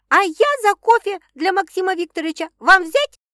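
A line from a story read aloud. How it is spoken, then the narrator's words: Loud shout into distance. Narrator (Russian): И громко кричит вглубь павильона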